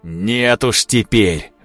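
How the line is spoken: Furious roar. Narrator (Russian): взревел в ярости Климов

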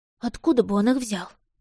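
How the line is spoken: Muttering. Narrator (Russian): пробормотала Поппи

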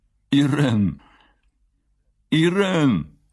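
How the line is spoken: Involuntarily plaintive. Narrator (Russian): Против воли голос его прозвучал жалобно

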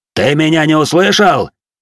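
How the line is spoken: Warrior's bark. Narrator (Russian): рявкнул на него воин

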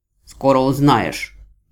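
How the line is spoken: Harsh rude reply. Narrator (Russian): резко и грубо отозвался бог-отступник

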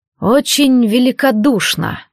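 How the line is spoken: Through gritted teeth. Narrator (Russian): процедил наемник

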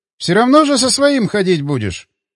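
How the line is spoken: Snorting. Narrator (Russian): хмыкнул Атаманов

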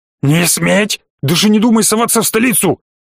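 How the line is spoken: Hoarse angry yell. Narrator (Russian): Хрипло заорал князь

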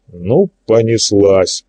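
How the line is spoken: Grumbling. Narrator (Russian): пробурчал Игорь

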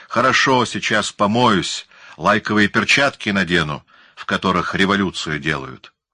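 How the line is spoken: Snapped back. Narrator (Russian): Лосев огрызнулся

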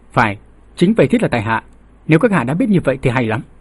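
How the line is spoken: Cold statement. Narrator (Vietnamese): Chàng thư sinh mặt vàng lạnh lùng nói

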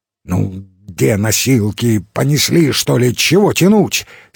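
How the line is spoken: Angry command. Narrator (Russian): сердито скомандовал он

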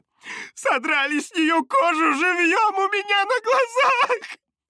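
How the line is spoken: Sobbing. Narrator (Russian): всхлипывала она

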